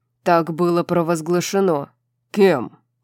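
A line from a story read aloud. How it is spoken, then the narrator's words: Angry question. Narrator (Russian): сердито спросил Хант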